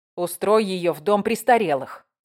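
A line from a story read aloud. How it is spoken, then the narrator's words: Scornful snort. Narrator (Russian): фыркнула Марла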